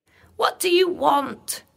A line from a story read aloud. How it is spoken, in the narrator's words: she cried